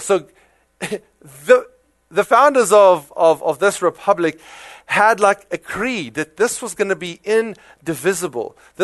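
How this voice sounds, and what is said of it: South African accent. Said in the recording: “my South African accent coming through”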